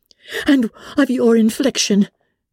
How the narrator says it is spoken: cried Elizabeth with energy

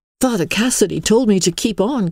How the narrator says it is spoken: cried Emily

